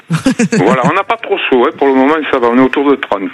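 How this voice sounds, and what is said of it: Slight southern French regional accent. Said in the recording (French): “avec votre petit accent ... D'à côté d'Arles. Dans les Bouches-du-Rhône.”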